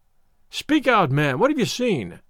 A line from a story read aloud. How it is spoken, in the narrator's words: cried a husky voice